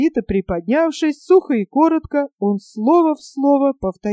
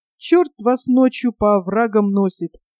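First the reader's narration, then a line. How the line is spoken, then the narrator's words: Cursing, losing temper. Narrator (Russian): Не сдержавшись, выругалась Надка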